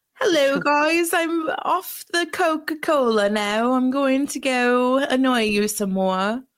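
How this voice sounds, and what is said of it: Deliberately bad put-on accent. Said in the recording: “That was a great accent. ... No, it was really bad. ... It was pretty bad.”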